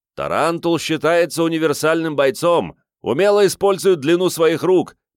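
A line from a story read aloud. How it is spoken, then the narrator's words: Shouted right into the ear. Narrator (Russian): почти в самое ухо прокричал меркеец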